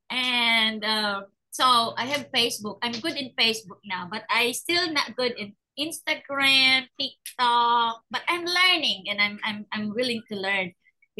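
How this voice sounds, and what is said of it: Strongly accented non-native English. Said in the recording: “I know I have a bad accent”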